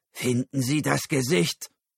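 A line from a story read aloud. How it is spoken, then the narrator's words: Cold command. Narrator (German): befahl Karl kalt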